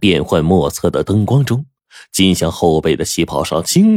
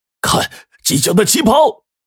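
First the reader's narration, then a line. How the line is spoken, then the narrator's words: Sudden scream. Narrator (Chinese): 大厅中突然有人尖叫着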